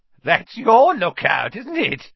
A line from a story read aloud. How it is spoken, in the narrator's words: said Filch, his voice cracking with glee